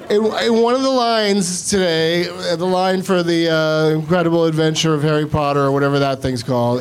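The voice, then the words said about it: Strained, worn-out voice. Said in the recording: “My voice is a little extra shot tonight ... it fucks up your voice when you spend all day yelling”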